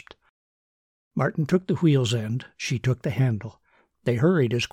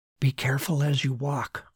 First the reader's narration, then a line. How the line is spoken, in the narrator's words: he whispered back